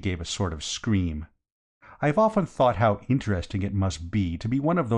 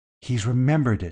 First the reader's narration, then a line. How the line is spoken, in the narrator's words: gasped